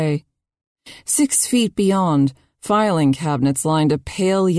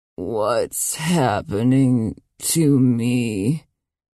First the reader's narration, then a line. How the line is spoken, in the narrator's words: She croaked